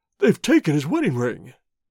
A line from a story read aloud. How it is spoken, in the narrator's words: he gasped